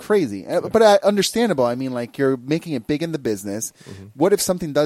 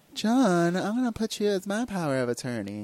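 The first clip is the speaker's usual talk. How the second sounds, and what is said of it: Imitates another person's voice. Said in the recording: “That's a pretty good impersonation. Pretty good.”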